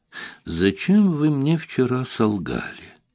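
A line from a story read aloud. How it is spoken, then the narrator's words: Warrior's sweet tone. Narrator (Russian): Милым тоном начал воин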